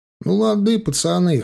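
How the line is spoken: Smirking snort. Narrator (Russian): хмыкнул гопник

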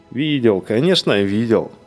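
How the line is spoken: Laughing while speaking. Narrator (Russian): приговаривал он сквозь смех

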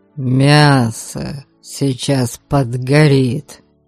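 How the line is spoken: Muffled grumbling. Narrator (Russian): Глухо заворчала Тиана

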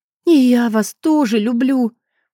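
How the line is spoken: Smiling through tears. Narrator (Russian): улыбнулась я сквозь слезы

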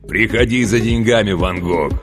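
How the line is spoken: Joyful bass, over phone. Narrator (Russian): радостно пробасил он в трубку

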